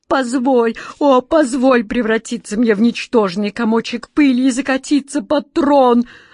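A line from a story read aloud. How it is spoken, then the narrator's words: Desperate wail. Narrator (Russian): отчаянно взвыл Джин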